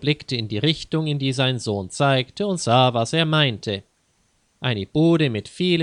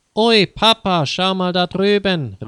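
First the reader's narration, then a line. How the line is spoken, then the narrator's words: Excited call. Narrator (German): rief Peter aufgeregt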